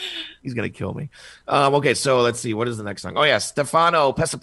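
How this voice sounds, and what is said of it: Usual voice. Nothing is said of it.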